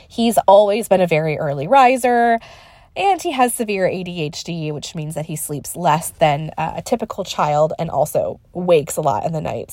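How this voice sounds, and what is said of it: Congested voice with a cold. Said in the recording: “as you might tell from my voice, I've got a little bit of a cold.”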